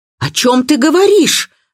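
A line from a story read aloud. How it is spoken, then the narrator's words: Shouting. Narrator (Russian): закричала Дина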